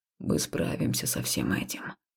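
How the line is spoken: Whisper. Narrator (Russian): шепнул он

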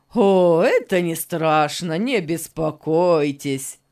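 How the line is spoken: Laughing. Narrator (Russian): Засмеялся Беннет

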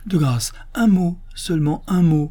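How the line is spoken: Priest's urgent pleading exclamation. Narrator (French): s'écria l'abbé, qui semblait vivement désirer que le docteur ne partît pas si tôt

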